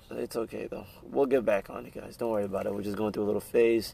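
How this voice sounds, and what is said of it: Worn, tired-sounding voice. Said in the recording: “I'm losing my voice. I'm half asleep.”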